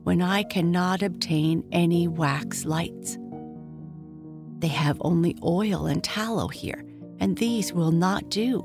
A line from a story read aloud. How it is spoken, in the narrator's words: sighed the old lamp